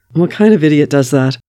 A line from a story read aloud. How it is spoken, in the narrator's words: Bucky laughs